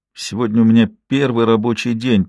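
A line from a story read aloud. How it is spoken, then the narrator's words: Sleepy. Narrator (Russian): произнесла она сонно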